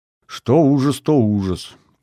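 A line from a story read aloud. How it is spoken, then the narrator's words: Grumbled. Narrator (Russian): проворчал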